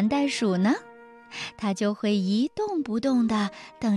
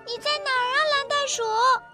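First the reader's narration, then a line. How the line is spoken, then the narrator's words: Calling out. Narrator (Chinese): 丽丽都会喊道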